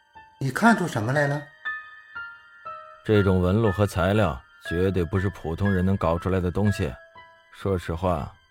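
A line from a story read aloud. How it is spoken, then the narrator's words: Exclaiming. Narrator (Chinese): 张天志的感叹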